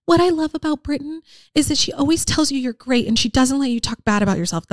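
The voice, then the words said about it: Imitates mother's voice. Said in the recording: “That's my mom voice.”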